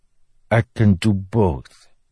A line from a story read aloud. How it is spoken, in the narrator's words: Febreth said solemnly